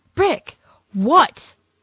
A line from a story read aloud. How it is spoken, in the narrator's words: He outright snapped at her